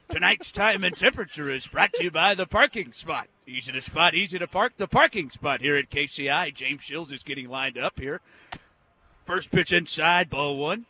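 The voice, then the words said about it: Overly enthusiastic baseball broadcaster voice. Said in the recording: “my impersonation ... Royals broadcaster Denny Matthews ... It's a little too enthusiastic, but it's good. The voice is good. ... He's got to do less.”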